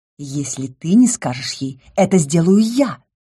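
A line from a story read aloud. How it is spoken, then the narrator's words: Sudden hiss. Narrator (Russian): вдруг прошипел Лис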